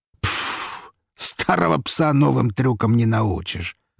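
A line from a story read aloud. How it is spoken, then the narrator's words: Chuckling. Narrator (Russian): хохотнул граф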